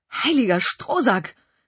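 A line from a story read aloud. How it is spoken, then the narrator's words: Exclamation. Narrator (German): rief ich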